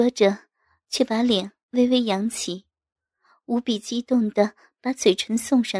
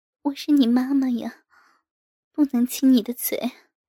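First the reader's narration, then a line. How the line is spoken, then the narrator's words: Dazed, breathless murmur. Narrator (Chinese): 我晕乎乎地娇喘着，我呢喃着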